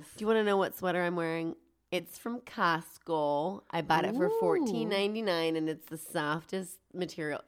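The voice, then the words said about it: Congested, stuffy-nosed, childlike voice. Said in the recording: “my nose is stuffed up ... a little head coldy this week ... throatiness ... you sound like a little kid right now ... my nose is super stuffed up”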